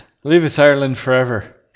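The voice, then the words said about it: Monotone, straightforward put-on accent. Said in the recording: “your monotone, straightforward accent”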